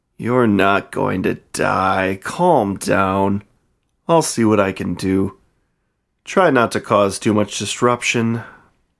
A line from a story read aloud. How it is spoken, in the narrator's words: he sighed